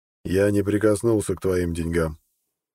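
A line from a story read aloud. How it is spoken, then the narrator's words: Cold objection. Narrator (Russian): холодно возразил Имар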